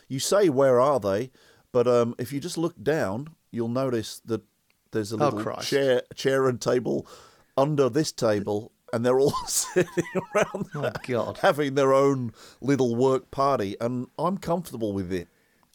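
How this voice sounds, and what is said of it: Put-on Australian accent. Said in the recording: “I'm suddenly Australian ... You have got an Australian twang.”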